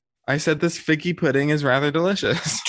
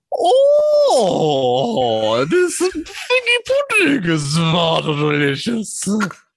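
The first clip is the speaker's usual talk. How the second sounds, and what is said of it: Impression of the Queen. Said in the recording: “do your best impersonation of the queen ... in that voice”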